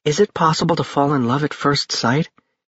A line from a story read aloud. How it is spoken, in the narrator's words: Brittany asked wistfully